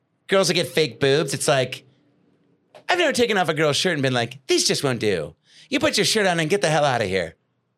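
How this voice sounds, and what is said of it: Imitates another person's voice. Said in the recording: “Can you do a good Mark Saratella impression ... That's pretty good.”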